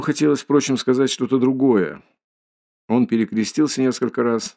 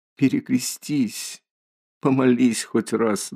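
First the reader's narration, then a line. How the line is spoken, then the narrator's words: Trembling timid plea. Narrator (Russian): дрожащим робким голосом попросила Соня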